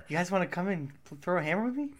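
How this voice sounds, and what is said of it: Mark Wahlberg impression. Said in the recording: “that Mark Wahlberg impression”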